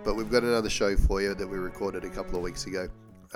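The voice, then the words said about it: Sick, not fully recovered voice. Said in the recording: “illness this year ... You can probably hear in my voice I'm still not 100%”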